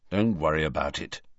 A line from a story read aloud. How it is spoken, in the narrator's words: said Harry grimly